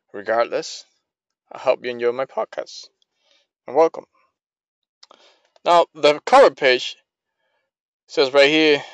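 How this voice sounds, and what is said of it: Strong foreign accent. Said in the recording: “Probably you guys won't understand what I say because of my accent. Yes, I'm from a far away land”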